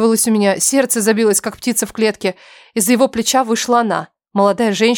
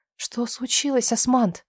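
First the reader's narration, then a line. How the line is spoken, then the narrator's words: Whisper. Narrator (Russian): прошептала она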